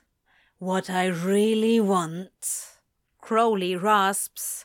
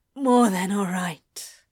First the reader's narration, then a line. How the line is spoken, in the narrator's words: Crowley gasps